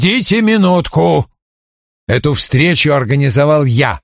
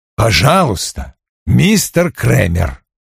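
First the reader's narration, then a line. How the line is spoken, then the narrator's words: Plain. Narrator (Russian): сказал Вульф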